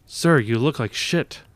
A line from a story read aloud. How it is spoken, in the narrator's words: a sergeant exclaimed